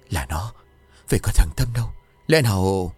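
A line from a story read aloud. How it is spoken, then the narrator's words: Terrified, to himself. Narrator (Vietnamese): Nỗi sợ hãi cùng cực rồi lại tự nói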